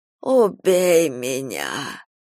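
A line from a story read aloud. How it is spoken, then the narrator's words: Rasping, hoarse. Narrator (Russian): прохрипела Софья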